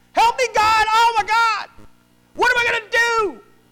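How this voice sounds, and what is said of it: Panicked screaming. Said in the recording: “you're screaming”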